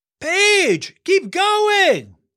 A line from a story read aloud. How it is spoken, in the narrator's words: yelled Elias